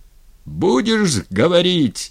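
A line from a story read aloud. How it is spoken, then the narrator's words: Yelled. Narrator (Russian): заорал дьяк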